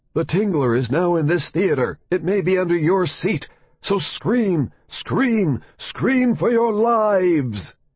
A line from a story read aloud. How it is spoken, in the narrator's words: a narrator on the soundtrack cried out